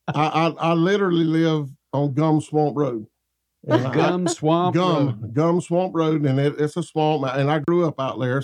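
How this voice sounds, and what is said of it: North Florida Southern accent. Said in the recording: “They may not understand me. ... It's North Florida English. ... my accent is not a put-on”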